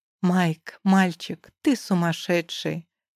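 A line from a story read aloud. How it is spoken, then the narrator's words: Laughing statement. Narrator (Russian): Констатирую, открыто смеясь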